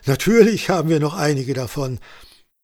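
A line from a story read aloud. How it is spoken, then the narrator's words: Laughing woman. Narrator (German): lachte die Bäuerin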